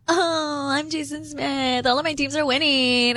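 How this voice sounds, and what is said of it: Valley Girl voice mocking another speaker. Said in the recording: “why are you going Valley Girl with my impression?... that's not how I sound... oh my God, like, my teams are winning”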